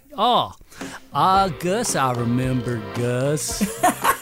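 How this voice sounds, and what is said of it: Slow, very country impression of Gus. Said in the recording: “great impression ... Gus talks really slow and very country”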